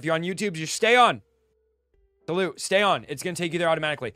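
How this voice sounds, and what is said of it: Yelling loudly. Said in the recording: “I don't know why I'm even yelling. ... Why am I yelling? ... screaming at myself.”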